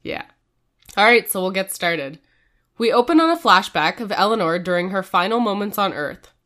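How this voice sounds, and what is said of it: Sick, slightly strained voice. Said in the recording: “I am a bit sick, so my voice might sound a little weird this episode”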